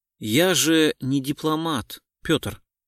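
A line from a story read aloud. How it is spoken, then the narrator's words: Calm reply. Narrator (Russian): спокойно ответил Гуров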